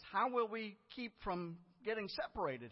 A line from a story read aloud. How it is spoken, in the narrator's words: he asked